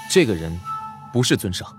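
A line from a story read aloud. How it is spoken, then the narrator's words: Murmured. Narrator (Chinese): 易潇喃喃道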